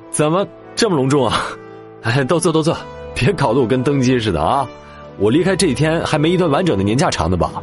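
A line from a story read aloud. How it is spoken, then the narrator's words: Short laugh. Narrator (Chinese): 孟昭笑了一声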